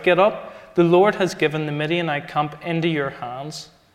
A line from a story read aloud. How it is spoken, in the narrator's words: cried out